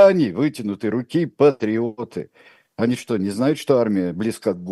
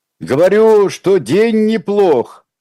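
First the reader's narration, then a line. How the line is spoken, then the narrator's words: Shout. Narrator (Russian): прокричал Николай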